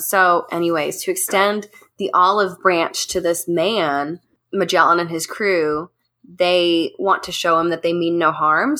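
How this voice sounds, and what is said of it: Scratchy, hoarse voice. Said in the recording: “I'm coming off of a cold right now, so my voice is a little scratchy, scratchy.”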